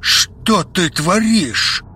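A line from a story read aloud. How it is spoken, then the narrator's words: Growled. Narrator (Russian): прорычал он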